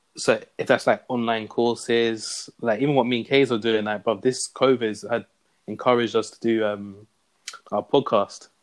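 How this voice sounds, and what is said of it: Strong regional accent, hard to follow. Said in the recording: “I feel bad for my American friends when we put on this accent, you know. They probably struggle to hear us”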